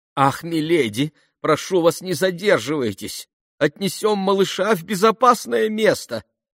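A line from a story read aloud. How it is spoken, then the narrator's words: Breathless pleading. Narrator (Russian): взмолилась, задыхаясь, няня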